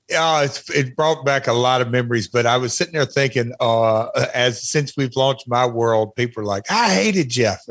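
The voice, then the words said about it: Twangy accent. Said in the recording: “That accent, which I still have, obviously... the twangy accent”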